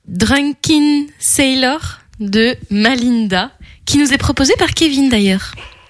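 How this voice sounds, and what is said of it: Accented English pronunciation. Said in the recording (French): “mais encore mon accent anglais”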